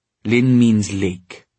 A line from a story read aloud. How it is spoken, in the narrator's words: said Cecily in an exasperated tone